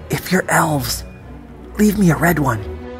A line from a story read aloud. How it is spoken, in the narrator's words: I whispered